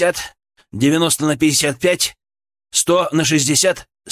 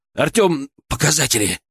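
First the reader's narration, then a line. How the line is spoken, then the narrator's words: Barked, voice breaking in terror. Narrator (Russian): рявкнул я, и мой голос сорвался от внезапно нахлынувшего ужаса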